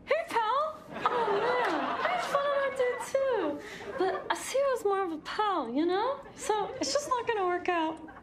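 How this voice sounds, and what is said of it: Impression of a fellow cast member. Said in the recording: “Chloe did a great one ... She was like, hey pals, hey guys, and she did it really good.”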